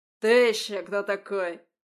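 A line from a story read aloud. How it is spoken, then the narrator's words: Barked. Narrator (Russian): рявкнул он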